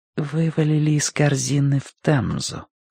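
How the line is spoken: Near whisper. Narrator (Russian): почти шепотом закончила женщина

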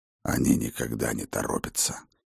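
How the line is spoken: Hoarse old man. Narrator (Russian): хрипло ответил старый Хрофт

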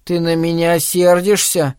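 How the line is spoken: Thin voice, close to tears. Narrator (Russian): сказал он тоненьким голоском, готовый в любой момент расплакаться

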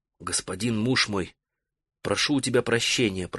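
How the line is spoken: Whisper. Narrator (Russian): прошептала она

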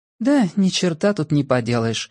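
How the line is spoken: Sighing. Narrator (Russian): вздохнула жена

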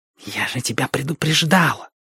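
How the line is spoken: Angry hiss. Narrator (Russian): зашипела Сьерра на Страйка

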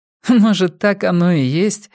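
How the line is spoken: Woman laughing again. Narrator (Russian): вновь засмеялась женщина

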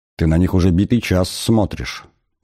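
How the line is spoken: Quiet remark. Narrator (Russian): негромко заметил Артур

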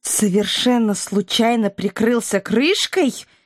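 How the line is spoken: Growling angrily. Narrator (Russian): с рычанием прозрела Илона

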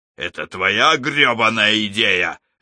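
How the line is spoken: Angry barking snap. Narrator (Russian): рявкнул Алекс на Эша

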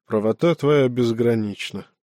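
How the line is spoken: Guilty sigh. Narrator (Russian): вздохнул Юпакша, виновато потупясь

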